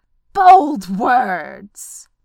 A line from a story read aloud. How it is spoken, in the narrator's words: roared Smaug